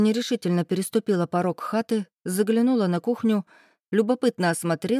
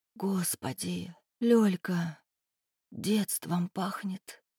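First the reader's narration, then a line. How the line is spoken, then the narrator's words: Trembling whisper. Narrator (Russian): прошептала дрогнувшим голосом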